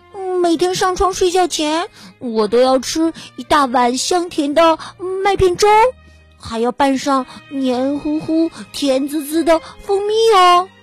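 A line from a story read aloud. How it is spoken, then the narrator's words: Loud clamoring. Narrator (Chinese): 巴尼嚷嚷着说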